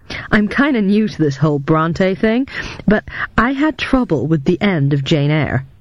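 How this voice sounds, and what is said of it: Young man, American accent. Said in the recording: “in an American accent”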